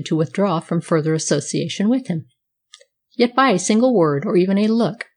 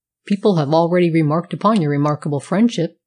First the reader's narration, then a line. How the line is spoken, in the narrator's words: said his friend